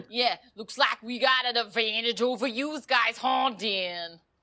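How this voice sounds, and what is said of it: Poor put-on Philadelphia accent. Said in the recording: “My Philly accent ... that's not even close”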